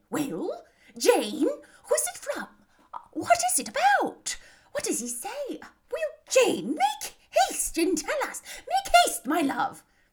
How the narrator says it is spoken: Bennet's eyes sparkled with pleasure, and she was eagerly calling out while her daughter read

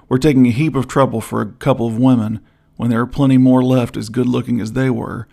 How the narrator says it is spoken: growled Mormon Ben

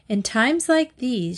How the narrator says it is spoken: said

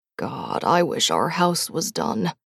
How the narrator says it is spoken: mumbled

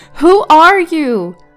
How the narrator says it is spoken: yelled into the house

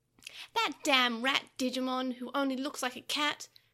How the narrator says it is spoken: Pico Devimon spat, flinging a stream of curses

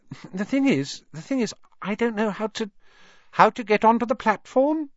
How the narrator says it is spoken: she said kindly

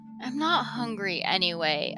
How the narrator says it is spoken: I mumble

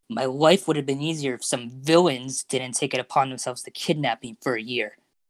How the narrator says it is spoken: Deku snapped

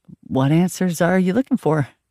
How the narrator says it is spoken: I said, trying to speak in a super normal voice

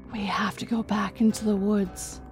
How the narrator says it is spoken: With a heavy heart, she whispered

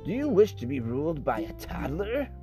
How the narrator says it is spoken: he asked with a sneer

